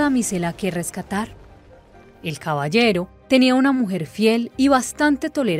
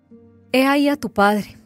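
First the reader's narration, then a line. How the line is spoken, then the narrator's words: Sighing. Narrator (Spanish): decía con un suspiro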